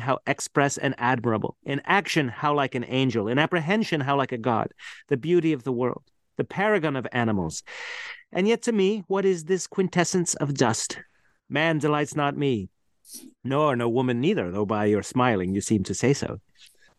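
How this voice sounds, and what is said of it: Californian accent. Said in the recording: “in a Californian accent”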